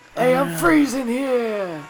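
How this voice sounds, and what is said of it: Put-on New York accent. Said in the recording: “Do I sound like a New Yorker? ... Yeah, dude, that's really good.”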